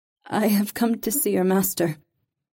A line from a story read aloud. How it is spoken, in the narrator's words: Reva said shakily